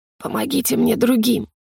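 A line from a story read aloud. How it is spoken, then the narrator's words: Hoarse rasp. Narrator (Russian): прохрипел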